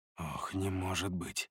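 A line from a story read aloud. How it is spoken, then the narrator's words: Pained mutter. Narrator (Russian): пробормотал я, и у меня заныло сердце, когда я узнал идущую впереди Эву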